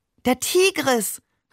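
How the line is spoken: Delighted exclamation. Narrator (German): rief er entzückt

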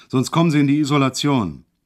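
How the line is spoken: Sudden roar. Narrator (German): brüllte er auf einmal los

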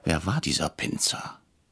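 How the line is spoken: Whispered. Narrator (German): flüsterte ich Herrn Bretscher zu

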